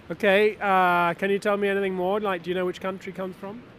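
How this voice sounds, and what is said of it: English accent. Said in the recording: “My accent is a clue. ... England.”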